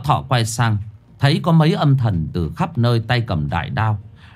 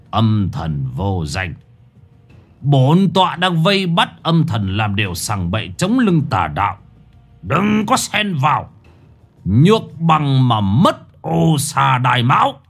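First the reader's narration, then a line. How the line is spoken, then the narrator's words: Old man's harsh growl. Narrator (Vietnamese): Lão Thọ gằn giọng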